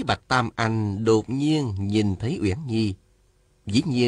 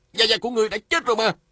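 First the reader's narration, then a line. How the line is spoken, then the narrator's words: Startled shout. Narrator (Vietnamese): Lê Cường nhảy bật dậy la lên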